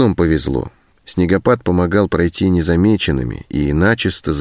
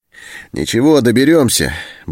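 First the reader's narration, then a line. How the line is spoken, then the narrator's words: Cheerful. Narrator (Russian): бодро сказал Антон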